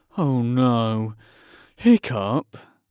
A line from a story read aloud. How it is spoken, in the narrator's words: groaned Dog's Breath the Durbrain and most of the other boys